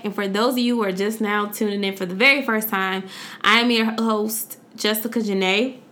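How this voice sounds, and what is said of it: Voice cracking. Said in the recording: “I don't know why my voice is cracking like that.”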